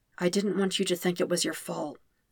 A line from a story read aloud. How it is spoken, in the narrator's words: Zuko says softly